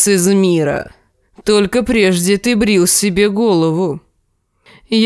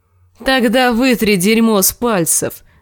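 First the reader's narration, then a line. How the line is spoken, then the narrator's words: Laughing dog. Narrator (Russian): засмеялся пес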